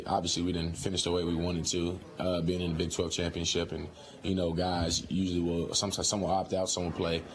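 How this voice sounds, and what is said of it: Slightly sick-sounding voice. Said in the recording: “I was out with a sickness. Um, you can probably hear it in my voice a little”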